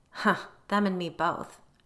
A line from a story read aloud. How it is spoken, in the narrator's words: Jenny said bitterly